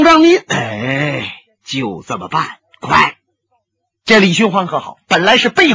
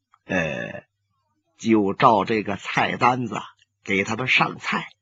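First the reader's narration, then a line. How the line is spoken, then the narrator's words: Flat, calm. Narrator (Chinese): 新湖大师淡淡的说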